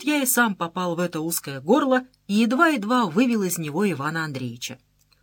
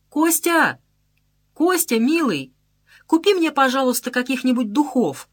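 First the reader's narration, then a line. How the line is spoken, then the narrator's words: Loud female shout. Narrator (Russian): Она так громко крикнула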